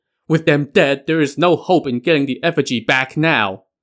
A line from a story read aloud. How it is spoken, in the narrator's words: wept bitterly